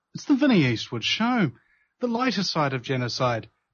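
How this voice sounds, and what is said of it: Dramatic narrator voice. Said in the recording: “in my narrator voice.”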